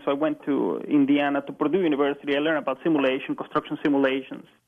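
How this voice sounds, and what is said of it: Hispanic accent. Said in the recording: “I'm originally from South America. I'm sure you can tell from my accent, Hispanic accent.”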